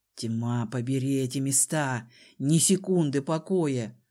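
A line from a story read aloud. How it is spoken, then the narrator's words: Gruff mutter. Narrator (Russian): буркнул Дезмонд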